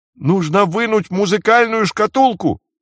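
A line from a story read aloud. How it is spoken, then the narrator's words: Shouting. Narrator (Russian): крикнул Джейсон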